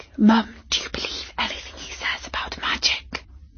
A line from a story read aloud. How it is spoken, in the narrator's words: Katie whispered